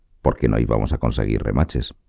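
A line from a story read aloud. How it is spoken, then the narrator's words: Reasonable tone. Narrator (Spanish): dijo el calderero en un tono razonable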